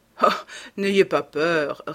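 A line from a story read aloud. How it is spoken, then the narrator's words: Sneering. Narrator (French): ricana l'Anglais, comprenant son inquiétude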